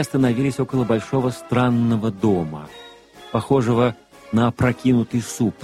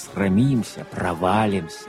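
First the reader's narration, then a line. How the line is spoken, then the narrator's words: Muttering, cold and nervous. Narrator (Russian): он, пожимаясь от холода и волнения, бормотал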